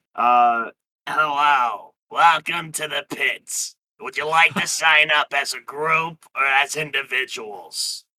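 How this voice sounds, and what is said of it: Imitating Monsters, Inc. girl voice. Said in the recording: “I want to do the Monsters, Inc. girl voice. I don't know how to do her voice. ... I can do her voice”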